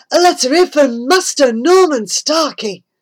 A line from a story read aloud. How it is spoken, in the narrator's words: he shouted out